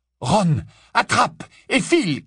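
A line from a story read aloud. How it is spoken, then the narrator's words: Shouted. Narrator (French): cria-t-il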